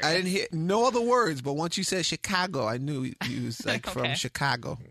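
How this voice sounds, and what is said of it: Slight New York accent. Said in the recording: “I got a little New York accent”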